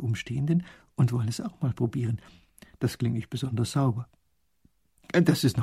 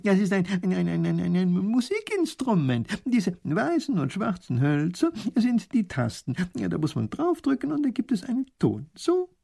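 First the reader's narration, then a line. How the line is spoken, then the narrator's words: Laughing. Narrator (German): lacht der Professor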